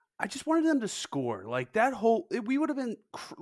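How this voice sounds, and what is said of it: Usual voice. Nothing is said of it.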